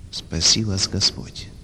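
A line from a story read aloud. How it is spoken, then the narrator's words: Quiet sorrowful voice. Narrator (Russian): тихо произнес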